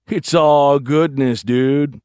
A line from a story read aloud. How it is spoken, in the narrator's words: Bilby drawled